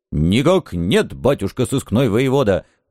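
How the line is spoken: Loud bark. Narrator (Russian): гаркнул он

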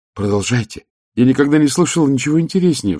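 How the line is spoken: Pleading. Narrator (Russian): взмолилась Низа

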